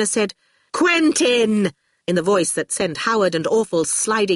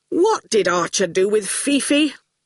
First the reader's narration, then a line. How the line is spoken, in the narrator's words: He said irritably